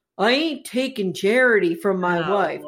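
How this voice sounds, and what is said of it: Deep monotone imitated character voice. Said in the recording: “I'm imitating how he sounds ... You're bad at imitation ... I'm trying to imitate his monotone ... he's got this real deep monotone voice”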